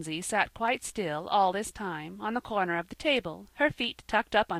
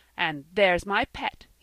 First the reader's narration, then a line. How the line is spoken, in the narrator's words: he cried in enthusiasm